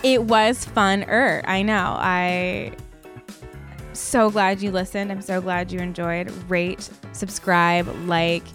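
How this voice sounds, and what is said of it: Creaky vocal fry voice. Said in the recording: “my vocal fry”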